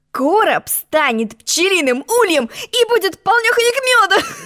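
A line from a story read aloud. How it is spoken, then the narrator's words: Laughing. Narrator (Russian): Засмеялся рыцарь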